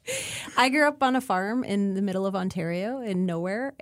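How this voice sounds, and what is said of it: Canadian accent. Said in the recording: “sound really Canadian”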